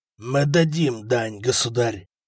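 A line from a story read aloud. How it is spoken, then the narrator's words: Exhausted hoarse wheeze. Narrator (Russian): прохрипел Бертуальд, вымотанный боем и потерей крови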